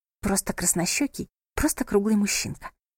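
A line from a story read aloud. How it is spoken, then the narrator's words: Whisper. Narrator (Russian): прошептала Лотти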